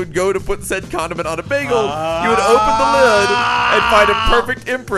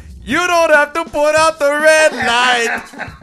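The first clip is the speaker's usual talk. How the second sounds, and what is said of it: Thick put-on Mexican accent. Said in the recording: “in a thick Mexican accent”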